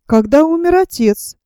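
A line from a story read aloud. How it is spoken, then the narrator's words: Said, then laughing. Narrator (Russian): сказал я и засмеялся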